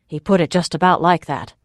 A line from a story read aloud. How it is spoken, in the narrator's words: Oryk said